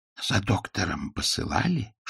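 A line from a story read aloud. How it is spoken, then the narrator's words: Whispered question. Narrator (Russian): шепотом спросил Пуаро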